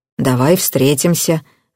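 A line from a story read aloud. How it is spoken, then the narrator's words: Grim agreement. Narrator (Russian): мрачно согласился Бабкин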